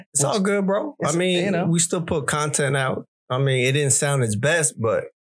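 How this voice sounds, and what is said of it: Rough, allergy-affected voice. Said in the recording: “Sorry about my voice. Sorry about my coughing. Allergy season.”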